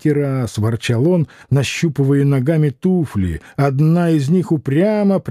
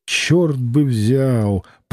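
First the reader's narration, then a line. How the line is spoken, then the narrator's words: Muttered. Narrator (Russian): пробормотал Самгин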